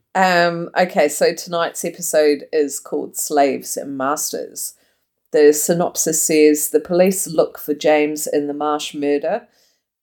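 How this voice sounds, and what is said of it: Strong Australian accent. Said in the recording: “you sounded really Aussie there.”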